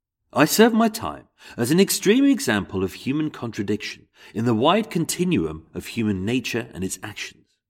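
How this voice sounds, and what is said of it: English accent. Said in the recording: “I'm going to do it in an English accent, my own accent.”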